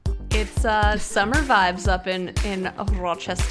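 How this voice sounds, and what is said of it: Put-on Rochester accent. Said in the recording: “that was a new Rochester accent I haven't heard from you before”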